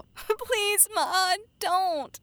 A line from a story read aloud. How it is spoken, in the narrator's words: Susie pleaded